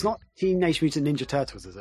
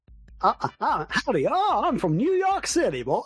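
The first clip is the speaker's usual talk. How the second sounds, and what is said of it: Put-on American country accent. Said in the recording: “always uses a country accent when he says dude ... it's the only American accent I can do”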